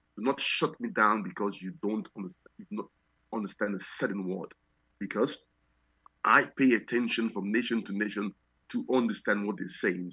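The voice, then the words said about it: Foreign accent, deliberately slow speech. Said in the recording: “you may find out that I pronounce some words differently from you. So I'm speaking rather slowly ... This is the slower version of how I talk ... ensure that you can understand my accent.”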